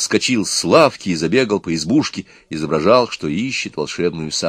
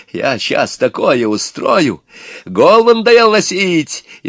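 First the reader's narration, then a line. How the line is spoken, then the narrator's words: Shouting. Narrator (Russian): Иван кричал на Горыныча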